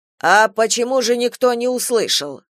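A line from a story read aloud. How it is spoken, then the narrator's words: Rough question. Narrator (Russian): грубо спросил Шушенков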